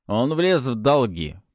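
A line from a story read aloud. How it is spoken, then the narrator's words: Grumbling. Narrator (Russian): проворчал Хорман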